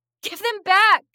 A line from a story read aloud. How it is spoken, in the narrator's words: screamed